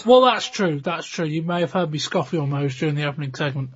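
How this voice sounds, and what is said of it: Hoarse, worn-out voice. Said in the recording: “my voice is a bit knackered, a bit hoarse.”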